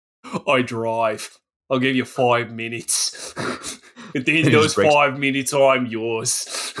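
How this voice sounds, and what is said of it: Put-on Australian accent. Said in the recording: “That was a good Australian accent.”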